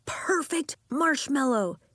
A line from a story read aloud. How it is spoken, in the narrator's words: he shouted